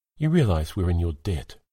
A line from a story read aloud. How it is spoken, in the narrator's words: Finlay eventually gently interrupted